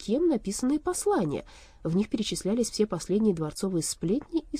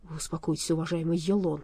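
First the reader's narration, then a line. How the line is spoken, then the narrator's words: Frightened mutter. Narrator (Russian): пробормотал перепуганный дворецкий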